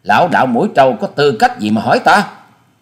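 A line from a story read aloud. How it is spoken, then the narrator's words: Angry. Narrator (Vietnamese): Hà Xà Tiên Tử giận dữ nói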